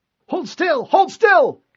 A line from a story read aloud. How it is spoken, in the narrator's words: Kappus yelled